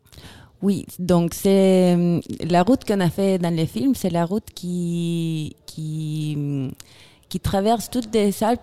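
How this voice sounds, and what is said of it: Chilean accent speaking French. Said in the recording (French): “Avec un, un bel accent. Très bel accent... ça vient de Chili”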